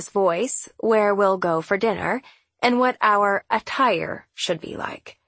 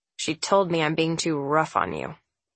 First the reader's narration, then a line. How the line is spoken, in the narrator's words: he says to me, his voice hard